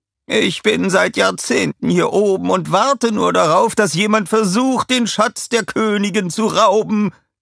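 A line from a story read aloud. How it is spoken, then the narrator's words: Shouted. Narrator (German): schrie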